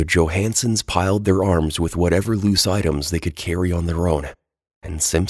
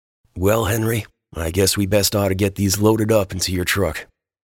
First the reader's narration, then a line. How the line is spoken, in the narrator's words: the sheriff, checking his temper and sudden throbbing pang for violence, just sighed, frowned, and said to his old friend